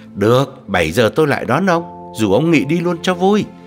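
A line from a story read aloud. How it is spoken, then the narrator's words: Eager cheerful reply. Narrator (Vietnamese): vội hớn hở đáp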